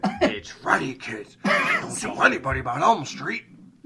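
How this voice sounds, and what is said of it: Raspy horror-villain Freddy voice. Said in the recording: “why did my voice change into like a... It sounds like fucking Freddy, totally. It sounds like you're Freddy, for sure.”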